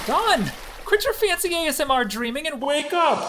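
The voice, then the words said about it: Screaming. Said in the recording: “Would everyone stop screaming?”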